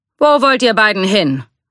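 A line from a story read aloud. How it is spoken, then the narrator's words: Called out. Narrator (German): rief er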